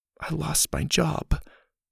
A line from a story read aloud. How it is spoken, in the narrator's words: she whispered